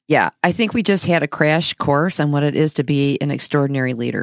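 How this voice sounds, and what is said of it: Hoarse, husky throaty voice. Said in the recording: “I just have a frog in my throat ... She's sounding kind of sexy today ... I got my sexy voice on ... I got a frog”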